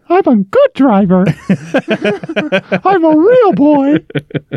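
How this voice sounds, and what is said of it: Cartoon puppet character voice. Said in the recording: “It's a bizarrely good Jiminy Cricket impression. Or Pinocchio impression.”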